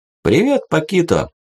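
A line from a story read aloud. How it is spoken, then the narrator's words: Cheerful. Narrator (Russian): весело проговорил я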